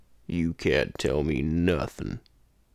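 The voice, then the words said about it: Very deep, low impersonated voice. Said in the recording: “I feel like I can feel the baritoneness of my voice ... the king of all low voices ... my impression of Sam Elliott ... with all the phlegm in my throat”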